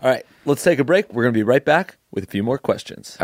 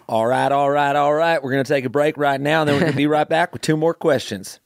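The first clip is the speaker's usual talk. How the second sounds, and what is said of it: Put-on Southern US accent. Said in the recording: “Let's do like Southern accent style.”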